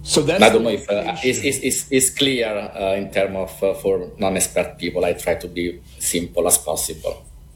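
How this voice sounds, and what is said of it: Thick Italian accent. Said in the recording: “I'm Italian, and I have a thick Italian accent, so you have to listen closely”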